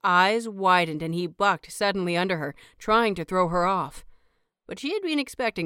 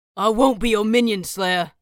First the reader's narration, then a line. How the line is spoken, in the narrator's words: snarled